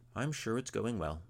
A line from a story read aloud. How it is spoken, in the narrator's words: said Ragnolf